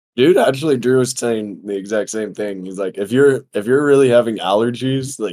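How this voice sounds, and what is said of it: Hoarse, weird-sounding voice. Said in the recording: “my voice sounds a little, I don't know. It sounds weird. It sounds a little hoarse ... My voice has only been fucked up”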